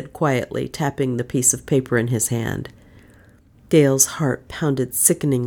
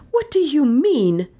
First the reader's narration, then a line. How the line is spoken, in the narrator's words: She said fiercely